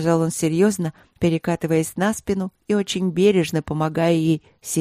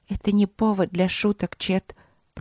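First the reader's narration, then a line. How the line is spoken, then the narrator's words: Reproachful whisper. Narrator (Russian): прошептала она с упреком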